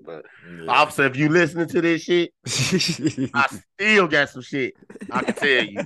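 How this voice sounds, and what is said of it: Hoarse, worn-out voice. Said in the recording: “my voice is gone for real. Shit, talking on that goddamn mic the whole goddamn time”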